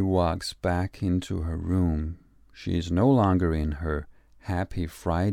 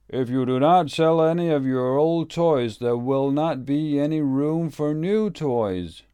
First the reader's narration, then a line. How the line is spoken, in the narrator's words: Her daddy shouts back